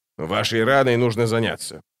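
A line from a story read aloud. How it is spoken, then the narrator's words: Grumbled. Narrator (Russian): проворчал он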